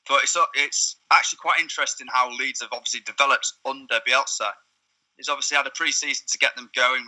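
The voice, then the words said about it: Yorkshire accent. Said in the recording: “As you can probably tell from my accent, I'm from the area. I'm a Yorkshire boy.”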